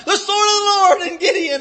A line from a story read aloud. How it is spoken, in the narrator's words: hollered